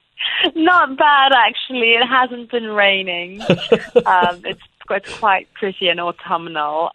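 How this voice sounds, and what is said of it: British accent. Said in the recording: “beautiful accent ... she's joining us today from the United Kingdom”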